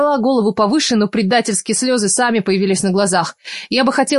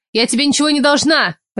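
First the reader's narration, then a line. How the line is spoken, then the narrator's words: Barking. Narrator (Russian): рявкнула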